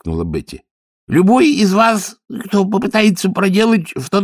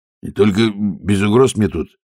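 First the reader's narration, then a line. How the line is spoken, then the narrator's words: Guard muttering. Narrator (Russian): пробормотал стражник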